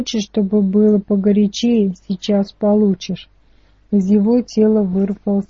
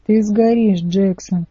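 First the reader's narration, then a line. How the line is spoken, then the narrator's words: Growled. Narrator (Russian): прорычал он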